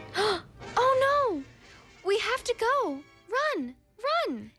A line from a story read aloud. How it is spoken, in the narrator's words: shouted the city mouse